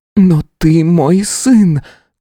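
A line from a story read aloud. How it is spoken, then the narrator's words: Desperate exclamation. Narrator (Russian): как последний довод воскликнула Алисия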